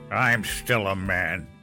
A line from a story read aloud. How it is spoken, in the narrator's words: he growled